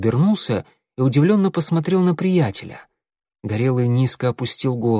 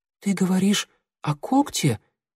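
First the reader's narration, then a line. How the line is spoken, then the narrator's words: Whispered question. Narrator (Russian): шепотом спросил Огонек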